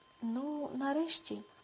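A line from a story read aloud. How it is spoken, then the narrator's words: Sighed. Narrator (Ukrainian): зітхнула Тереза, побачивши їх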